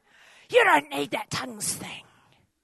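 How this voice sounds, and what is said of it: Put-on demon voice. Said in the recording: “That's just my demon voice.”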